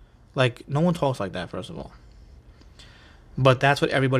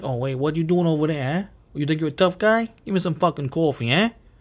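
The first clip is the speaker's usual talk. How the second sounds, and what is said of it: Stereotypical New York mafia accent. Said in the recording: “New York accent ... the typical, like, mafia accent”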